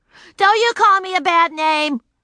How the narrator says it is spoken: she shouted

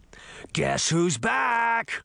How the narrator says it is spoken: he snarled

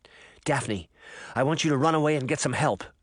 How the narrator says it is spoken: Sabrina said

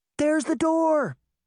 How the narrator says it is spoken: Daphne shouted

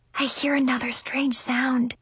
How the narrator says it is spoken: she whispered

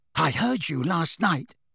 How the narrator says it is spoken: said breathlessly

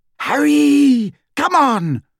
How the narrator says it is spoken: screamed Hermione

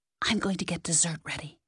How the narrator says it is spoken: whispered

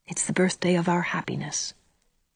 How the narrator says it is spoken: said Anne softly

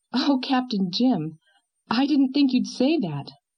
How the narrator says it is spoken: she exclaimed reproachfully

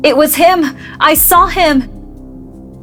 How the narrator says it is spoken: an old man screaming

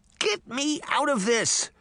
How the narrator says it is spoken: the little girl cried

